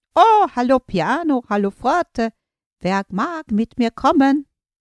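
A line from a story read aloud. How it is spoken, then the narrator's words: Calling out. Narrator (German): Mezzo rief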